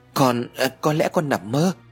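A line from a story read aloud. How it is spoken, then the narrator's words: Stammered reply. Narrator (Vietnamese): Ái lắp bắp trả lời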